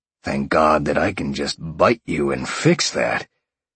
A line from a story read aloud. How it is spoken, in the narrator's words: Sean growled at Jolene